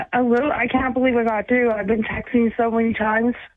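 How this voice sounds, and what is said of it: Nervous voice. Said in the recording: “you sound nervous.”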